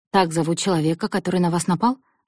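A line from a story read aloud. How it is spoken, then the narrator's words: Sharp question. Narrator (Russian): резко спросил Мартинес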